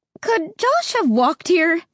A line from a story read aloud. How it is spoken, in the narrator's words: Mom asked, her voice tight and higher than usual